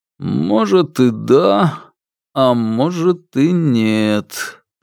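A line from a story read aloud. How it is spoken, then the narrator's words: Drawl. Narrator (Russian): протянул он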